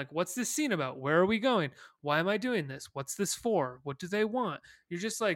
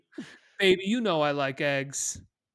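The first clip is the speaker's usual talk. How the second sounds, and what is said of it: Imitates another person's voice. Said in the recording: “I was doing like a slight Will Smith impression”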